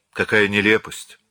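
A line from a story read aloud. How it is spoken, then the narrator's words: Sighing. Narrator (Russian): вздохнула Марианна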